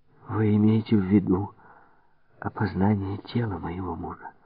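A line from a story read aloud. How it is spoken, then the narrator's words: Quiet question. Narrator (Russian): тихо спросила мадам Рено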